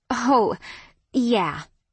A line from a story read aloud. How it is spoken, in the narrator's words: my laugh was staccato